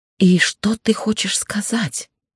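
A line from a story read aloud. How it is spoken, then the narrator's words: Quiet, steady voice. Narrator (Russian): Голос не дрогнул, хоть и прозвучал тихо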